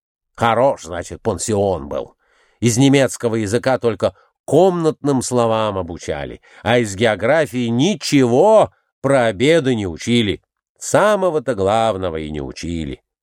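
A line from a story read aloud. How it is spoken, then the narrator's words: Grumbling. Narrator (Russian): Николай Иванович проворчал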